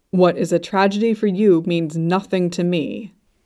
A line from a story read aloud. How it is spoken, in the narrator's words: Luo Bingha said coldly